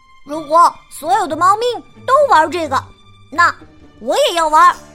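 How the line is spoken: Loud shout. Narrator (Chinese): 赫娜大声叫道

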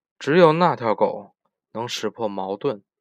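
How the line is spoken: Angry. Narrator (Chinese): 我听出自己的口气充满愤怒

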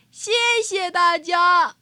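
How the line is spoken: Loud. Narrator (Chinese): 台上的小猪大声地说

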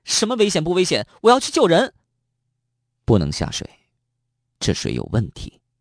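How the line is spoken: Shouting. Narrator (Chinese): 方圆冲着徐天大声叫道

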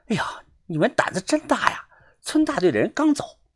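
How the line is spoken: Woman speaking quietly. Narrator (Chinese): 胖女人小声的对我说道

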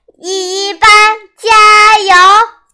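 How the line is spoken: Hoarse shouting. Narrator (Chinese): 我嗓子都喊哑了

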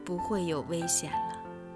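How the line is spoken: Gentle, slow voice. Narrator (Chinese): 德拉夫拉星人用温柔的声音慢慢地说

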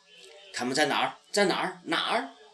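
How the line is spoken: Booming fierce echoing question. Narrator (Chinese): 轰然的声音，好像回声，好像在凶狠地问

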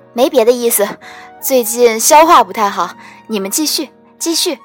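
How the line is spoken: Hurried, suppressing laughter. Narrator (Chinese): 他一边辛苦地憋笑，一边赶紧解释

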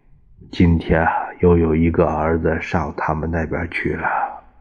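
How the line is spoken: Sighing. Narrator (Chinese): 陈布雷叹了一口气

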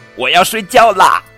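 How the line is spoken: Loud. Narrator (Chinese): 绒绒鸡大声说

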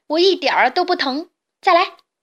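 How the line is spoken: Smug shout. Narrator (Chinese): 他得意地对怪物喊

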